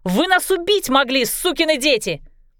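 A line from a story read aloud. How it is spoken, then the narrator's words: Indignant shouting. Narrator (Russian): Клэр возмущенно кричала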